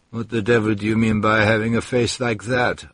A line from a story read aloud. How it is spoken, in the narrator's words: answered the Serbian calmly